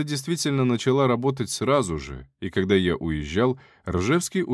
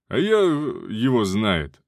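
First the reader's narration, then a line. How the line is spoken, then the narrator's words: Answered with a playful chuckle. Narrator (Russian): ответил Буревой и задорно хохотнул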